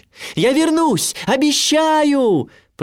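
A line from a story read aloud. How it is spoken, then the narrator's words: Shouting while sailing away. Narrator (Russian): прокричал я, уплывая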